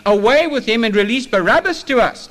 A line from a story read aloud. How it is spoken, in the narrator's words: the mob had now been stirred up, and now they're shouting